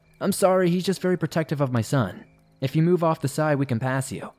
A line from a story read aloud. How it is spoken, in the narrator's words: Trying to talk over Henry, I loudly said